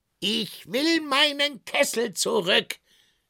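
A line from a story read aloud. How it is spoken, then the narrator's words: Tinker calling out. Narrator (German): rief der Kesselschmied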